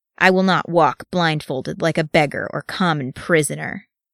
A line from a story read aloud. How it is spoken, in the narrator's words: he said in a low, angry voice